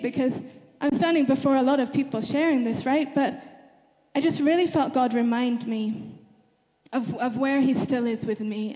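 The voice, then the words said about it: Shaky, nervous voice. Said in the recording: “hear my voice is a little bit shaky”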